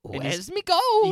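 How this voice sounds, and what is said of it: Irish leprechaun character voice. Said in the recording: “I think I can do a decent Leprechaun impression... It's not bad.”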